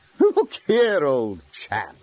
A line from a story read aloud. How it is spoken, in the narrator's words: said DeMeister haughtily